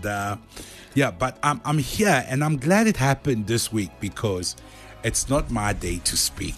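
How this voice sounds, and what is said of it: Voice sounds under the weather. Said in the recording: “as you can hear, even my voice knows, like my voice is not 100% today ... I had a little bit of a flu”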